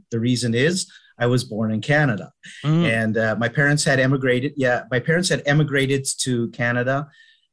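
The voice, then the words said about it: Canadian accent. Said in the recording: “if you might note from my accent, this is a Canadian accent.”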